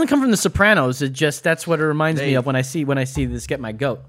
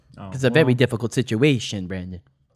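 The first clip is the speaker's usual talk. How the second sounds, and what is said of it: Imitates a TV character's voice. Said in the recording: “I like that impression. ... Tony Soprano.”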